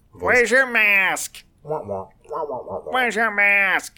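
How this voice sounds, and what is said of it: Muffled Charlie Brown adult voice. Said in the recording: “your impression of a Karen complaining? ... the Charlie Brown parent”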